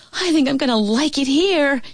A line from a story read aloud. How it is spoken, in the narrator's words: she yelled to Louise